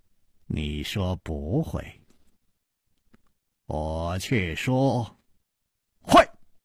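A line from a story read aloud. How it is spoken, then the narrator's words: Slow, smiling. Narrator (Chinese): 楚留香缓缓地笑了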